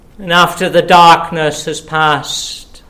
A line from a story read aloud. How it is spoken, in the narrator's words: he cried out with a loud voice